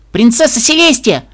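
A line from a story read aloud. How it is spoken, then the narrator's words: Sudden shout. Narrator (Russian): вдруг крикнул Сюрпрайз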